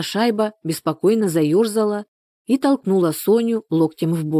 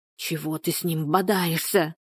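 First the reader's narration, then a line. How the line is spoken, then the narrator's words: Hissing whisper. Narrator (Russian): заговорила она свистящим шепотом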